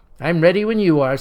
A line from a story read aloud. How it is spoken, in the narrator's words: says the president